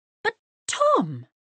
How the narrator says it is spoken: cried Mrs

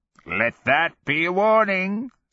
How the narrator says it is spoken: Sorrow cackled in abject glee

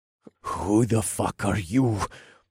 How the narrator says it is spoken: the man groaned

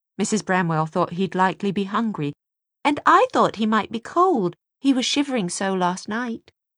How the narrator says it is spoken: Jessamine put in eagerly

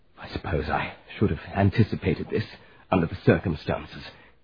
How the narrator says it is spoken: he muttered, racing over to the wall

